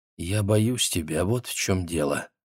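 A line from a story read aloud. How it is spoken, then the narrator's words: Quiet. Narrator (Russian): Затем она тихо сказала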